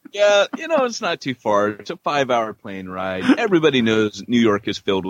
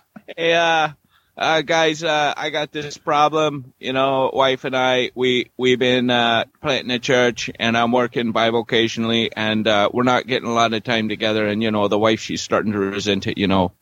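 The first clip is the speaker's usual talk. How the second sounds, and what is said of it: Brooklyn accent drifting into Irish brogue. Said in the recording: “you kind of started out with a different accent ... Brooklyn, and went to a little bit of an Irish brogue ... first I'm in New York. Nah, I'm in Ireland.”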